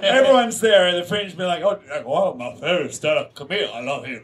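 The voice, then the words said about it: Bland, unplaceable put-on accent. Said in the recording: “The key with that accent is keeping it bland enough that it could not offend anyone. Because everyone thinks it's a different nationality.”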